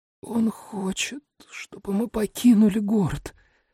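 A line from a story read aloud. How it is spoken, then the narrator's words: Hoarse rasp. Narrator (Russian): прохрипела Каприз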